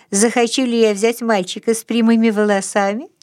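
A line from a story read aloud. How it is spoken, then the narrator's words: Laughing question. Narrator (Russian): смеясь, переспросила Мартина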